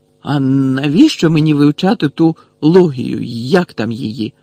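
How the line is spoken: Exclaimed. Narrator (Ukrainian): вигукнув

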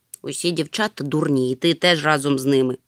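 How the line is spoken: Grumbling moomintroll. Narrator (Ukrainian): буркнув мумітроль

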